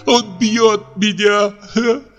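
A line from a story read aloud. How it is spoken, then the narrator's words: Sobbing speech. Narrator (Russian): проговорила Ольга и, зарыдав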